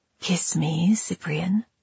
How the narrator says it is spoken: she whispered

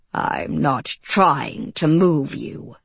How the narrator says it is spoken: Marvel growled

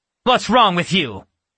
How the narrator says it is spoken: Natasha snapped

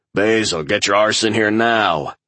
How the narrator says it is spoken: growled Ladatic into his comms device

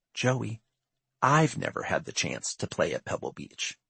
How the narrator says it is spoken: he whispered

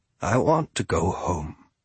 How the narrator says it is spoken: he said very quietly

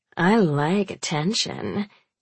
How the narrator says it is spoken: Chelsea purrs

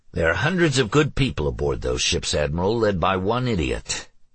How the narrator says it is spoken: Alex growled out

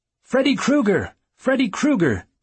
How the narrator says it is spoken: she shouted, wild-eyed

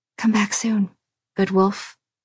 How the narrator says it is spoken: she whispered

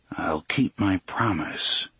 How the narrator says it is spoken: Roland, his lips didn't move as he murmured

